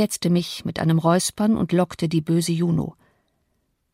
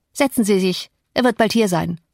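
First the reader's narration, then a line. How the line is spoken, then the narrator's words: Curt young man. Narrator (German): Der junge Mann sagte schroff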